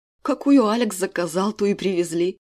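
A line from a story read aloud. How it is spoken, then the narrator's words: Chuckling. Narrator (Russian): хохотнул Константин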